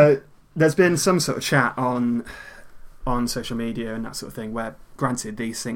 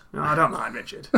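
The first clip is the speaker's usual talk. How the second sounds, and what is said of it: Imitates another person's voice. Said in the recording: “my new Warnock impression”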